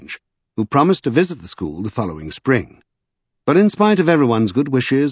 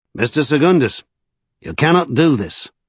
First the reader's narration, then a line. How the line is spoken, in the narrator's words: he said in a Yorkshire accent